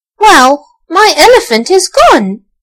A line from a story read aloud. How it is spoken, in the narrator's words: exclaimed Archie